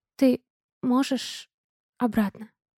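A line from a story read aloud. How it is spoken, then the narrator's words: Awkward mumble. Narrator (Russian): Неловко бормочу я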